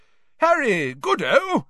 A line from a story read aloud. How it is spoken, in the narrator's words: said Bagman, happily